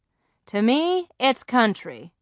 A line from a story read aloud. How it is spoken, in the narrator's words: Grandma said